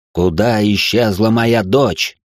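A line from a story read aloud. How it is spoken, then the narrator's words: Spitting words through teeth. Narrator (Russian): выплевывать слова сквозь зубы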